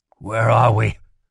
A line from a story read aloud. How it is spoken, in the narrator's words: he asked, his voice hoarse